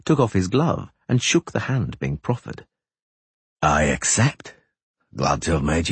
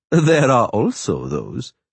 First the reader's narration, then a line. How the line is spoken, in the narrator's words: Three Jackdaws laughed